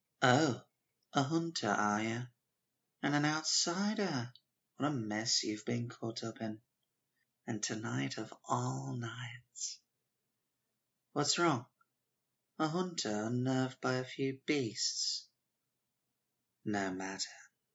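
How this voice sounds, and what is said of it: Video game character voice. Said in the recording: “I'm the one who does the voices, I should do one from Bloodborne.”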